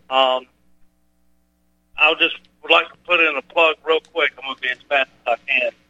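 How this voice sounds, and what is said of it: Strong accent, poor phone line. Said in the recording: “your accent and your lousy phone connection make you almost unreadable”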